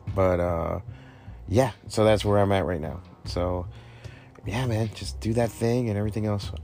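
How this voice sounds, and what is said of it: Worn-out, strained voice. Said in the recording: “talking all day. So my voice is kind of shot.”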